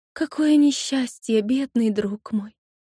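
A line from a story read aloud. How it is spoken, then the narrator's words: Gentle, tender. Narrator (Russian): ласково сказала она певице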